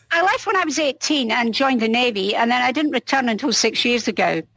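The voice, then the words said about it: Scottish accent. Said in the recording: “because of your accent, I've always assumed you live in Scotland.”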